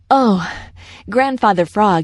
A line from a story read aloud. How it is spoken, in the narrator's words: he panted as soon as he reached the edge of the Smiling Pool